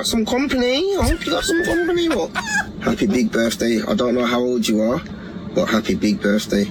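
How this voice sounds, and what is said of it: British accent, possibly Liverpool. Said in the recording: “I like that accent ... Is he Scottish? ... He sounds British. ... Liverpool, maybe?”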